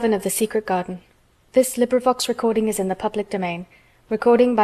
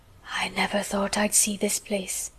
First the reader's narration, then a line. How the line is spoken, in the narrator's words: he said at last in a whisper